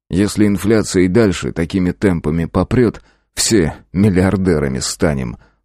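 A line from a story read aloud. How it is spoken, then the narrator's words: Snorting chuckle. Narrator (Russian): хмыкнул я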